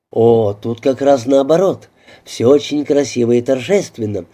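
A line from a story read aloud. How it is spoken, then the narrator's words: Plain. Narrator (Russian): ответила мисс Уэйт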